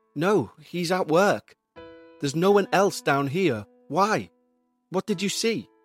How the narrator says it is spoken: Dean asked

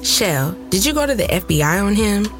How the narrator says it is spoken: I laughed, putting my hand over my mouth

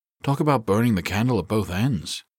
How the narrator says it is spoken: he said dryly

